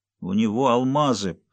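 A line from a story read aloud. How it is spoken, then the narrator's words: Mumbled. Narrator (Russian): промямлил Бенедикт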